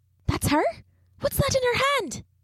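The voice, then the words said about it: Whispering. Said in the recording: “spoke again, this time in a whisper”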